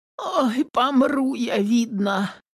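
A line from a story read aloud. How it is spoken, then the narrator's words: Moaning. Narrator (Russian): стонала Домна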